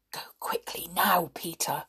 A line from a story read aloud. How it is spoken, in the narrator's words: whispered Binky